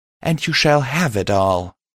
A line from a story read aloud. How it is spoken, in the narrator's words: Pride replied